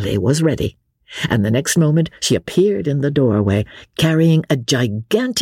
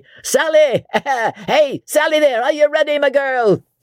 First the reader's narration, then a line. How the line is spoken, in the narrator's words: said Jellyband, shouted lustily